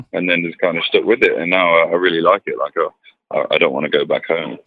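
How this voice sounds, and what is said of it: English accent, no French trace. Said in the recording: “I don't hear any French in this accent. I hear English.”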